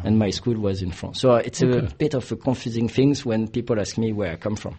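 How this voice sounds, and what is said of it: Italian accent. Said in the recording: “you're not from here originally... my accent... I'm Italian”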